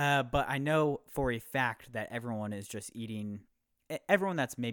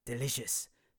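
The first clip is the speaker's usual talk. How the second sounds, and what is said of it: Imitates another person's accent. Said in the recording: “That's my Gordon Ramsay accent.”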